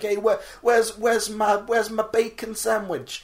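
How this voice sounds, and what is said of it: American diner customer impression. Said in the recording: “my American diner customer impression”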